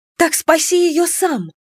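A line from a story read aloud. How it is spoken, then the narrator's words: Crying out in tears. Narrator (Russian): воскликнула я, не в силах бороться с катящимися по щекам слезами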